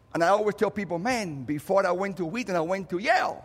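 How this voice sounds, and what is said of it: Cuban Spanish accent in English. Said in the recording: “a Cuban refugee ... you have to pay attention to my accent”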